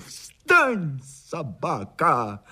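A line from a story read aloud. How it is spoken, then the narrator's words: Shout. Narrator (Russian): крикнул Маугли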